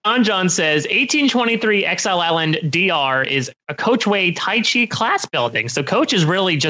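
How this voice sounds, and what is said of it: Usual voice. Nothing is said of it.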